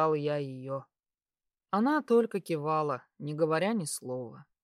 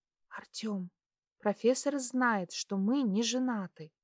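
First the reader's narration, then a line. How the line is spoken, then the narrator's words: Quiet correction. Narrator (Russian): тихо поправила меня Дуся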